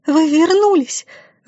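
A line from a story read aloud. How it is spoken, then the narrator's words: Joyful exclamation, abruptly cut. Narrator (Russian): радостно воскликнула Катерина и тут же осеклась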